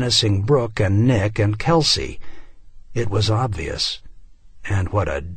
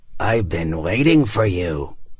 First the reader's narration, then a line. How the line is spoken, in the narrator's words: it said in a rasping voice